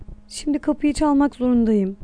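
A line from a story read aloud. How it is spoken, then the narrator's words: Murmur. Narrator (Turkish): diye mırıldandı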